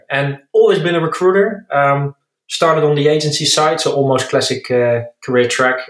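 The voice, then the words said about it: Dutch accent in English. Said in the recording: “As you maybe can hear by my accent, I'm Dutch”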